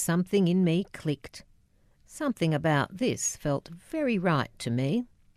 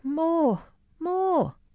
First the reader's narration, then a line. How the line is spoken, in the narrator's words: the kids would scream